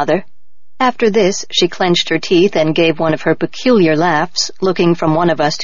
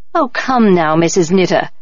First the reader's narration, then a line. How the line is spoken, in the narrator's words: Mameha said with a laugh